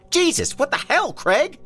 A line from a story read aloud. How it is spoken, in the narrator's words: she spat